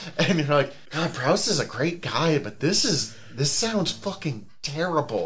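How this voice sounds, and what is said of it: Usual voice. Nothing is said of it.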